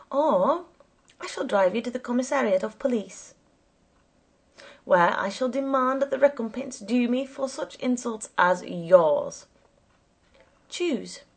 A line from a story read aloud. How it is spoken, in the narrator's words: he said in an even, hoarse tone